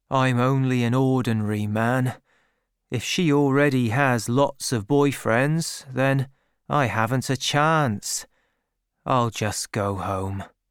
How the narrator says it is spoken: said Gabriel sadly

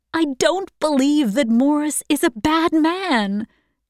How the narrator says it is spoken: she cried

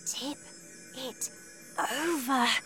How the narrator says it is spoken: Matilda whispered

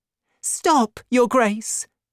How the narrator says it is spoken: cried Madame Bonacieux

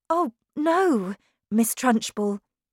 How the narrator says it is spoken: cried Miss Honey

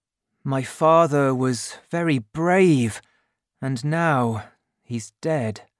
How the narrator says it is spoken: thought sadly

